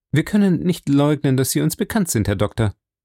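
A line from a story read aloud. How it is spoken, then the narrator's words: Plain. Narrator (German): sagte er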